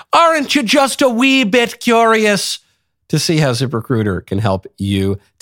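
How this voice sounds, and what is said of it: Put-on Irish accent. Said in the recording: “in the Irish accent”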